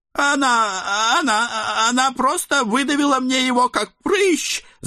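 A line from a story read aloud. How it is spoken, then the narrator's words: Agitated yelling. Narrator (Russian): завопил Эд, подпрыгивая на месте от нахлынувших воспоминаний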